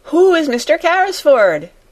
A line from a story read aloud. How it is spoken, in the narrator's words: shouted Jessie